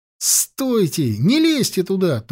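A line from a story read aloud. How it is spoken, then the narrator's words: Urgent shout. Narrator (Russian): только успел он крикнуть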